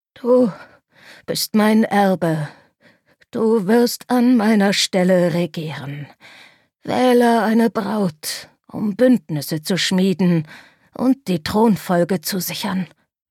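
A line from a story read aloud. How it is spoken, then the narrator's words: King gasping out. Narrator (German): stößt der König keuchend hervor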